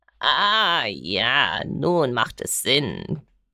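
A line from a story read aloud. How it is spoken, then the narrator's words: Croaking. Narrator (German): krächzte er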